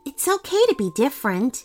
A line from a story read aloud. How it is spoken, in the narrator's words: Basma explained gently